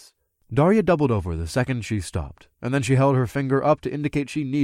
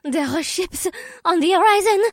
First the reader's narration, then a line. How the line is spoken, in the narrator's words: she sputtered